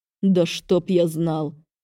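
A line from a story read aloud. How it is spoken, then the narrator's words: Through gritted teeth, wincing. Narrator (Russian): процедил мужчина, поморщившись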